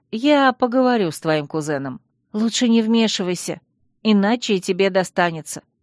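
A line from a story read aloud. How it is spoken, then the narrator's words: Sighing. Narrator (Russian): вздохнула Алекс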